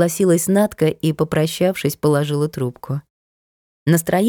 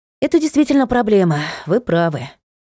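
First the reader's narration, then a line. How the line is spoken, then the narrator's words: Sighing young woman. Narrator (Russian): вздохнула телефонная девушка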